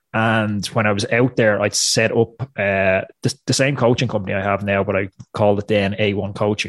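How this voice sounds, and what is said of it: Irish accent. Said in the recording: “You can probably tell from the accent, I'm not American, I'm Irish”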